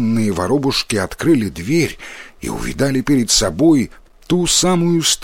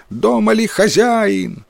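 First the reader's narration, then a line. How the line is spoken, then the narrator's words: Loud shout. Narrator (Russian): громко прокричал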